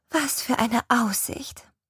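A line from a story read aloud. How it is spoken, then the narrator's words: Sighed. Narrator (German): seufzt Helen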